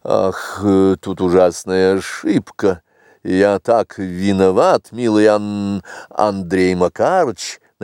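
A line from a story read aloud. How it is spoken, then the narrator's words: Young man mumbling. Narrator (Russian): начал мямлить молодой человек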